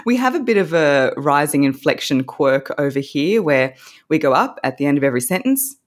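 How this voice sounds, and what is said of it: Australian accent. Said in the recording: “this beautiful Australian accent ... I do have an Australian accent.”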